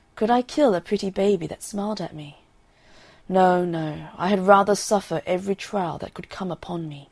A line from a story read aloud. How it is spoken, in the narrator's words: sighing deeply, he said